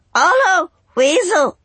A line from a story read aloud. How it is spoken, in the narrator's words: still screaming out a mess of squawks and words